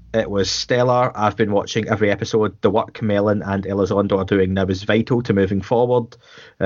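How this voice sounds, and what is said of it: Scottish accent. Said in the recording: “difficult names to pronounce in a Scottish accent”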